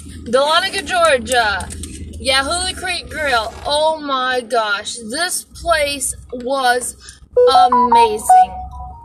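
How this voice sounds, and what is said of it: Southern US Georgia accent. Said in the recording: “We live in Georgia, even if, I don't know if you hear it in our accent”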